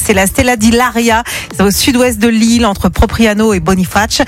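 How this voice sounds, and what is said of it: Put-on Corsican accent. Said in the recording (French): “T'as vachement bossé l'accent corse, hein.”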